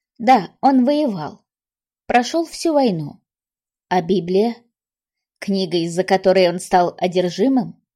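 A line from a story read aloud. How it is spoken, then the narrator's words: Dry, unfamiliar voice. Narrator (Russian): Вера Федоровна сказала сухим, незнакомым голосом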